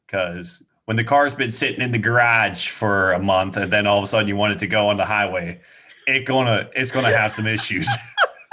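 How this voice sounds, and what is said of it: Minnesota-Boston-like put-on accent. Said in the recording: “What was that accent? ... You from like Minnesota? ... It's like Minnesota, but like who spent some time in Boston. ... You kind of sound like Canadian.”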